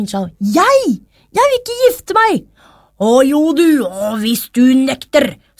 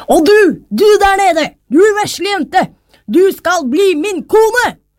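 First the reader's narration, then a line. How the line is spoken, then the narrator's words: King calling out. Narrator (Norwegian): da kongen fikk øye på henne ropte han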